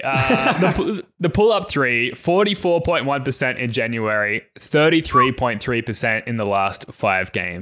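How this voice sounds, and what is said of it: Australian accent. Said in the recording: “your Aussie accent ... It's a dialect thing”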